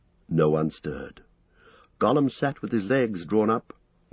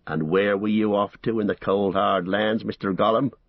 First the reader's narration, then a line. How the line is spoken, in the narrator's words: he growled